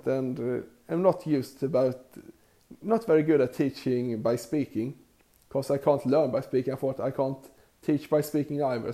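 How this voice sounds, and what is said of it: Strong non-native accent. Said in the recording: “I have a terrible accent.”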